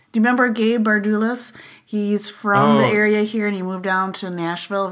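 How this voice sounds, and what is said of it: Wisconsin accent. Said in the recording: “The accent's coming out. Well, it's always out. So anyway, I'm sorry. I'm from Wisconsin too... if you can get past her accent”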